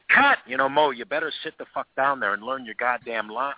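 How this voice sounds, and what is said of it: Good impression of Billy. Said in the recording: “impression's pretty good ... That's a pretty good Billy impression.”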